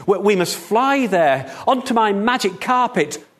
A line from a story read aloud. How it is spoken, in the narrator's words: cried the second